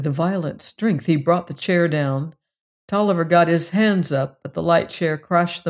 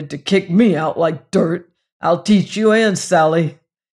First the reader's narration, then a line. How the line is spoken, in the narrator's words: he grunted